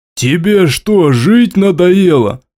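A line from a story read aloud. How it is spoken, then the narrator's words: Growling. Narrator (Russian): прорычал искатель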